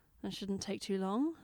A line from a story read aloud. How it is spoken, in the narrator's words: Jenna muttered sardonically